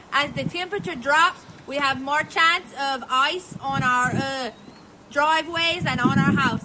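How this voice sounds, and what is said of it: Cajun accent. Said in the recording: “that's kind of a Cajun accent. She lives down in South Louisiana.”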